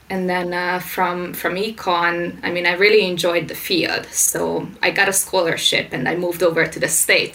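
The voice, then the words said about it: Hungarian-accented English. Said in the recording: “this weird accent ... I'm originally Hungarian”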